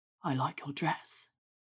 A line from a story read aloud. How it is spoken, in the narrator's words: he whispered